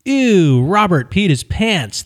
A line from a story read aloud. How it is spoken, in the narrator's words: they yelled